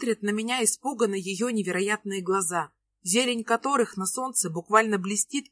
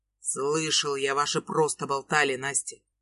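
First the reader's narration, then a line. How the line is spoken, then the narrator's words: Harsh and rude. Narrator (Russian): Выходит резко и грубо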